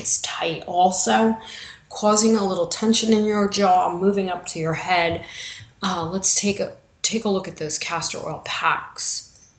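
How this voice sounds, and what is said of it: New York accent. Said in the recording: “my New York accent.”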